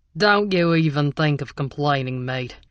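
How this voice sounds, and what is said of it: Scornful put-on Australian accent. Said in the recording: “this one boasting an Australian accent and a whole lot of scorn”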